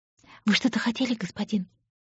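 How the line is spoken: Breathless, captivated. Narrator (Russian): выдохнула она, не в силах оторваться от этого взгляда

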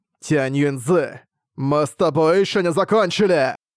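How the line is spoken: Growling. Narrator (Russian): прорычал Ван Лень

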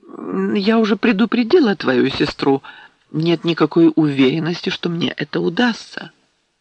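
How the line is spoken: Hurried, awkward, flustered. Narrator (Russian): Она почувствовала себя неловко, даже немного растерянно, и торопливо сказала

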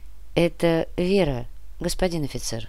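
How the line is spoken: Soft unfamiliar voice. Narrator (Russian): мягко произнес незнакомый голос

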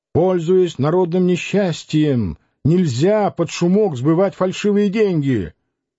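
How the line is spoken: Stout man shouting. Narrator (Russian): Человек бородатый и толстый, кричал

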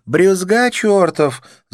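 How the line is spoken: Laughing. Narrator (Russian): засмеялась она

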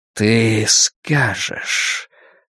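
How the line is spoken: Whispered. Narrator (Russian): прошептал он

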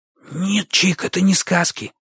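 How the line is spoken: Heated whisper. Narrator (Russian): шепотом горячился Бочо

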